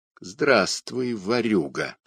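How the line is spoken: Deliberate solemn pronouncement. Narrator (Russian): раздельно и торжественно проговорил сущий

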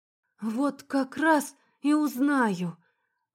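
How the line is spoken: Weary mutter. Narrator (Russian): Устало пробормотала я

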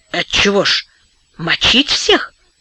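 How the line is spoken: Whispered question. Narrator (Russian): шепотом спросил Вадик Кашин

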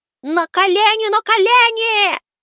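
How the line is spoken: Squeaky. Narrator (Russian): запищал я

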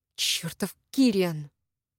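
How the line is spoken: Angry hiss. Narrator (Russian): прошипела

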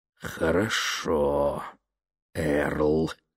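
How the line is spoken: Strained choked voice. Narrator (Russian): сдавленным голосом произнес он

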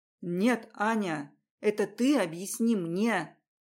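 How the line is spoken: Hissed. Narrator (Russian): прошипел

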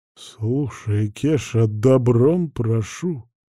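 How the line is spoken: Nearly moaning. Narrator (Russian): почти простонал Коленкин

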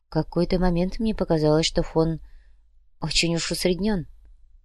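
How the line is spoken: Whisper. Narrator (Russian): прошептала Яна

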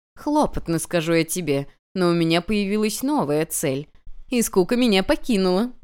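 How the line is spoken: Goddess chuckling. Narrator (Russian): хохотнула богиня

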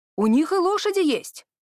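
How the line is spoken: Cheerful remark. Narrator (Russian): радостно отметил Торстон

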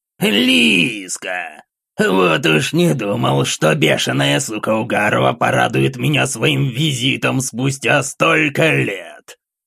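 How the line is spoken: Hoarse voice breaking silence. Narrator (Russian): Его хриплый голос разорвал тишину

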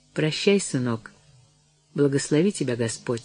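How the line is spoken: Quiet. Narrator (Russian): сказала она тихо

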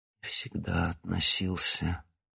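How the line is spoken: Quiet mutter. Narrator (Russian): тихо пробормотал Кривоносов

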